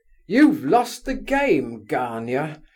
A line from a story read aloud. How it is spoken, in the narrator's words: he cried